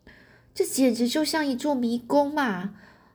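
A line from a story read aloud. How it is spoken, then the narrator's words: Humorous whisper. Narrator (Chinese): 亨利很幽默，小声向华生医生说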